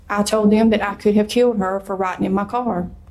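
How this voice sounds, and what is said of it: Calm, even-toned delivery. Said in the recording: “In that calm of voice? ... Well, not that calm”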